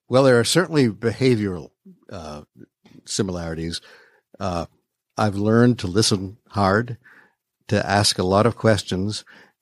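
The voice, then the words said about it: Smooth radio-announcer voice. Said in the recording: “natural sort of smooth jazz radio voice”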